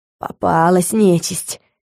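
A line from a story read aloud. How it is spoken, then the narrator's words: Hoarse wheeze. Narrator (Russian): просипел Саймон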